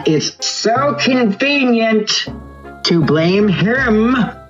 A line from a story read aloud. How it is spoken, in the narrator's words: From somewhere, Zeus yells back